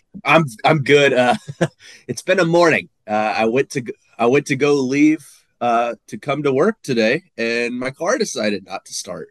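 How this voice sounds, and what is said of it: Congested, stuffy-nosed voice. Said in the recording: “You sound a little congested. ... A little congested, allergies, I guess.”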